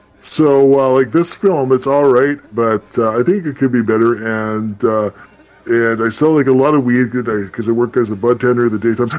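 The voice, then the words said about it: Imitates another person's voice. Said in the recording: “my batch impression ... I sound just like him, right? ... Totally, spot on, actually.”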